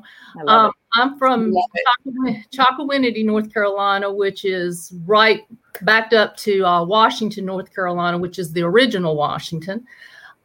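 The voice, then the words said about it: Southern American twang. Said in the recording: “you're going to hear the Southern twang now”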